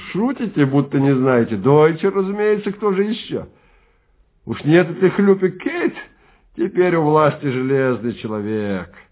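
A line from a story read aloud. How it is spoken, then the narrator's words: Giggling. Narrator (Russian): Человек за конторкой хихикнул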